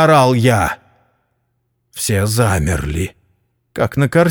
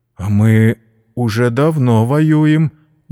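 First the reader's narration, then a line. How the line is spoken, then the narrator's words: Uncertain. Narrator (Russian): неуверенно сказал генерал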